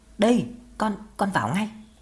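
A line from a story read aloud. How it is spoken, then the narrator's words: Stammering reply. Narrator (Vietnamese): Lâm lắp bắp đáp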